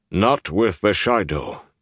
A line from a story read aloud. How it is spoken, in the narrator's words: Tall Bale rumbled